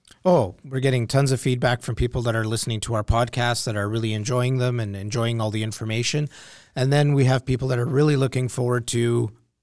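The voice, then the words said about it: Hoarse, strained voice. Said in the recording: “Sounds like you're losing your voice.”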